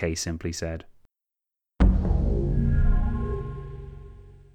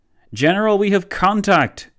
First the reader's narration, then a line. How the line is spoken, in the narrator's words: boomed one of von Leto Vorbeck's forward soldiers